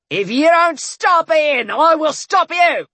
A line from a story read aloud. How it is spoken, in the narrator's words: Bones shouted